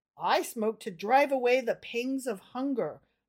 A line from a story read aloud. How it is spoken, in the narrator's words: murmured the thin, poor man apologetically